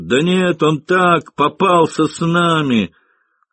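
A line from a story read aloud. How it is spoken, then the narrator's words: Sailors shouting. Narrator (Russian): Матросы кричали майору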